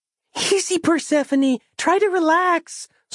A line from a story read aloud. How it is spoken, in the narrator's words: squealed Christabel